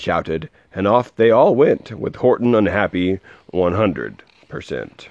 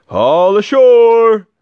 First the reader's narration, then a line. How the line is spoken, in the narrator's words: the men shouted